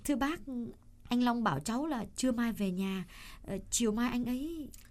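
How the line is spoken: Hesitant speech. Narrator (Vietnamese): Trâm ngập ngừng bảo bà Mạnh

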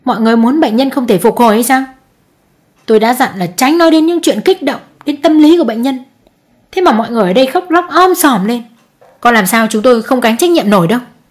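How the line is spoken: Angry harsh doctor. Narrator (Vietnamese): Bực tức, bác sĩ tiến lại gần bố mẹ chú Đại và mụ Hường tỏ thái độ gay gắt

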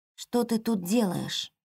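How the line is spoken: Quiet. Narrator (Russian): тихо произнесла она

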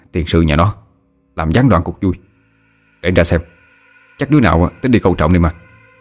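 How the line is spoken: Muttering. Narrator (Vietnamese): Tiến lẩm bẩm

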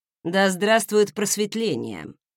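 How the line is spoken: Quiet snort. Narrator (Russian): тихонечко хмыкнул Редвин

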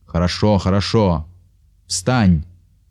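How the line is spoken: Stern remark. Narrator (Russian): строго заметил Зорич

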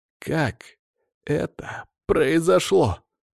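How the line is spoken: Muffled, dull question. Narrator (Russian): глухо спросил

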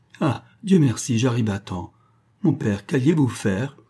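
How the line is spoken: Exclamation. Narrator (French): s'écria-t-elle

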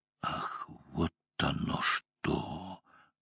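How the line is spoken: Whisper. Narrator (Russian): прошептал Деграф

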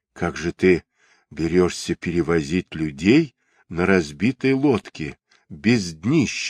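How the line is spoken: Plain. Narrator (Russian): спросил он лодочника

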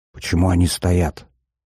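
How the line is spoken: Whisper. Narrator (Russian): прошептал Батахов

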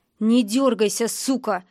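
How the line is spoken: Growling voice. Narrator (Russian): узнала я рычащий голос

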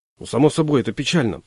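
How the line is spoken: Muttering. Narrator (Russian): пробормотал я

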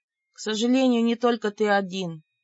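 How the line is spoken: Inaudible sigh. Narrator (Russian): неслышно вздохнула я

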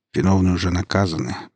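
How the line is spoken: Muttered. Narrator (Russian): пробормотал Лесницкий

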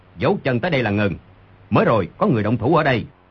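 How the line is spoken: Sudden shout. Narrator (Vietnamese): Người đi đầu đột nhiên quát

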